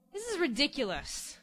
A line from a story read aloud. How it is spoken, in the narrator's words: Beauty said crossly